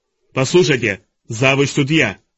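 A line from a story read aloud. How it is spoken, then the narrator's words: Barking. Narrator (Russian): рявкнул Нира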